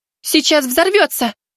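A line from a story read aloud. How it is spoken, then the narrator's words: Shout. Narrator (Russian): крикнула Лита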